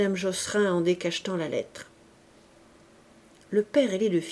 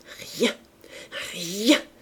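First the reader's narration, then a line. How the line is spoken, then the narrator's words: Stammering. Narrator (French): bégaya-t-elle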